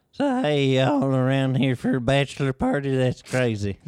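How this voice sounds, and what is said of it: Southern accent character voice. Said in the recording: “Southern stripper... An accent... Southern stripper?”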